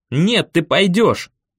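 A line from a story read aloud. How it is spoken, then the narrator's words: Barking. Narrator (Russian): рявкнул я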